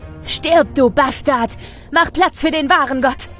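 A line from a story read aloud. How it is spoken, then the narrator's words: Devil screaming, furious, possessed. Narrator (German): schreit der Teufel wütend und besessen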